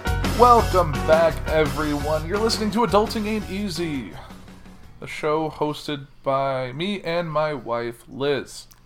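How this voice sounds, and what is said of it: Weird put-on voice. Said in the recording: “I'm doing my weird voice.”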